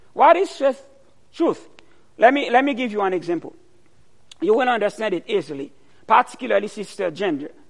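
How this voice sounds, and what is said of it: Strong accent. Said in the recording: “you have a strong accent ... I've got a problem of accent because my accent is not your accent.”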